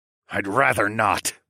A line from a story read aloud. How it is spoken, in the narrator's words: I snarled